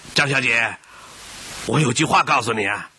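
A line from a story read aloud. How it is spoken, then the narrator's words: Calling out. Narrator (Chinese): 阿朱……喊住他说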